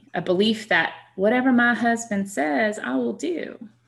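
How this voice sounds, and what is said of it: Put-on sweet Southern accent. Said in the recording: “my sweet Southern accent when I lapsed into my complementarianism role”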